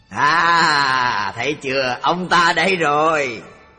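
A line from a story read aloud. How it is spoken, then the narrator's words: Joyful exclamation. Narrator (Vietnamese): Người Bà La Môn mừng rỡ reo lên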